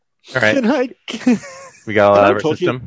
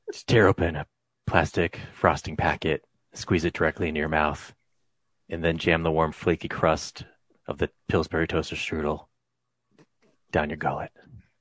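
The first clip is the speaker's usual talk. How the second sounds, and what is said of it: Whispering. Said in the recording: “Why are you whispering?”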